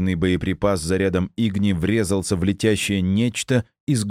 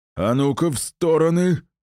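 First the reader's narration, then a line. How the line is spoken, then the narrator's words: Roared. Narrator (Russian): проревел Добрый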